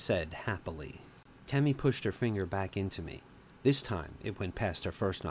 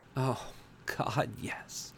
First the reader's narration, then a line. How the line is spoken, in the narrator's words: I panted